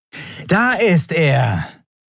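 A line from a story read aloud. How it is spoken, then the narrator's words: Exclaimed. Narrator (German): rief Elen aus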